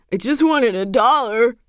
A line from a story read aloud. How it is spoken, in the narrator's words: whining